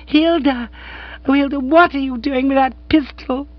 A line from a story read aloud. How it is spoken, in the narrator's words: began, then broke off with a piercing scream